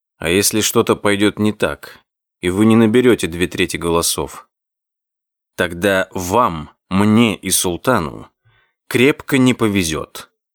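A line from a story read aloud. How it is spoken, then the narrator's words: Gloomy reply. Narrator (Russian): мрачно ответил Одик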